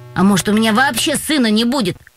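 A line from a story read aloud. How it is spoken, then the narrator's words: Snorting. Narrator (Russian): хмыкнул Юрка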